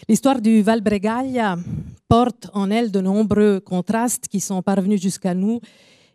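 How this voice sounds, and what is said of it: French with Italian accent. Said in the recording (French): “je m'excuse déjà pour mon accent ... mon accent est là pour dire qu'il y a aussi une réforme qui vient du sud, qui parle italien”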